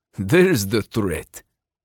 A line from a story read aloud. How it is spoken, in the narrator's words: Sergei chuckled